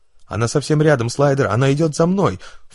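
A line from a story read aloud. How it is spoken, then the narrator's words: Panicked doomed shout. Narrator (Russian): в панике кричал обреченный пилот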